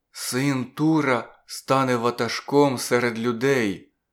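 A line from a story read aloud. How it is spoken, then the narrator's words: Very quiet. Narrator (Ukrainian): зовсім тихо промовив Зур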